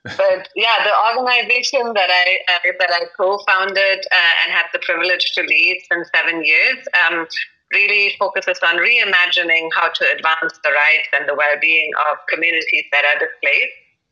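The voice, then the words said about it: German accent. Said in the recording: “you're probably hearing the funny German accent”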